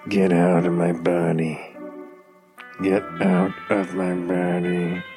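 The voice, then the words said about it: Grumpy gritted-teeth side-of-mouth voice. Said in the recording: “grumpy old Clint Eastwood ... I'm gritting my teeth and I'm talking out of the left side of my mouth ... best Clint Eastwood impression”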